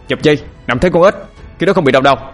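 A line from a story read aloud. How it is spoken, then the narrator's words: Loud shout. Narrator (Vietnamese): anh Hùng quát lớn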